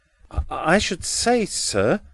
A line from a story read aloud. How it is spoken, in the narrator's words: stammered Edwin